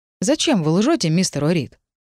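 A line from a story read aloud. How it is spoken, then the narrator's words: Calm inquiry. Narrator (Russian): спокойно поинтересовался агент Лайт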